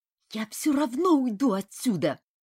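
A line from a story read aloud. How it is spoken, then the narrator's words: Furious hiss. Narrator (Russian): яростно прошипел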